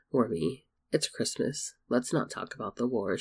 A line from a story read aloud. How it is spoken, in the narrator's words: she said softly